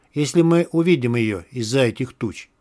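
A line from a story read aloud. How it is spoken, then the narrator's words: In an undertone. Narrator (Russian): добавил вполголоса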